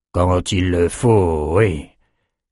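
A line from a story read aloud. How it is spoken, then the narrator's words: Grumbled. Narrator (French): grogna Nathan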